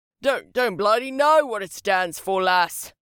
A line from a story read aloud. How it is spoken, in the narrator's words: he bellowed